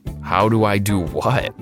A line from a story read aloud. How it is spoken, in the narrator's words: I chuckled